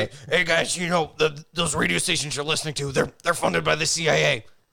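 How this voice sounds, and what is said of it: Imitates another person's voice. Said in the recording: “That sounds a little Alex Jonesy ... good Alex Jones impersonation. ... That was a pretty damn good Alex Jones.”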